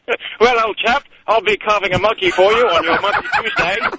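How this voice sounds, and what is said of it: Fake British accent. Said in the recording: “I can fake a British accent”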